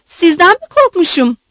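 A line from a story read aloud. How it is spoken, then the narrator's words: Shouting. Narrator (Turkish): diye bağırdı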